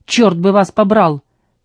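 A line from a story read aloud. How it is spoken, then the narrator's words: Barked. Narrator (Russian): рявкнул Элис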